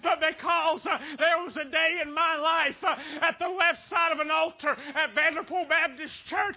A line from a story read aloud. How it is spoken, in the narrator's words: I cried out and said